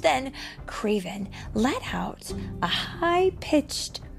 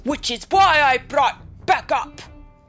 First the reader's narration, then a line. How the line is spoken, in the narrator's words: Kraven shouted